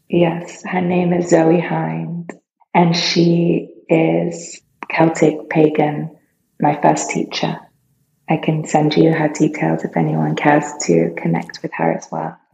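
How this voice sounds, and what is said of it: British accent. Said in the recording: “I have a British accent? ... That does help”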